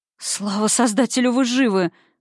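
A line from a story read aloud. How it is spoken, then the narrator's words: Breathless exhale. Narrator (Russian): выдохнула я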